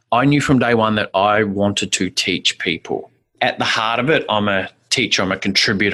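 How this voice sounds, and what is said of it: New Zealand accent. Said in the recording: “lovely New Zealand accent.”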